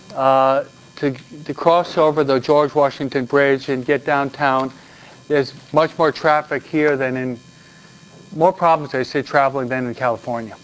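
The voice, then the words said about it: New York accent. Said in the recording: “You probably know by my New York accent, huh?”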